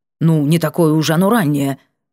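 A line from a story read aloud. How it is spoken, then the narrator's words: Gruff mutter. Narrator (Russian): буркнул мужчина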